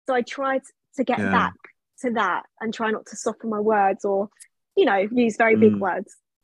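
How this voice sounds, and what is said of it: Softened Cockney accent. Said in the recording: “I am cockney ... That was my accent back in the day. It has softened so much. ... it's still there.”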